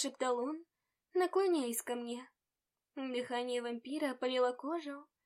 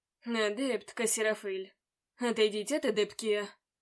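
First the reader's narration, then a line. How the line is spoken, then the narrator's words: Growl. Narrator (Russian): Прорычал он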